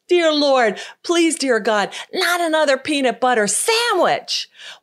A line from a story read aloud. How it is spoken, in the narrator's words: he looked up into the heavens and he exclaimed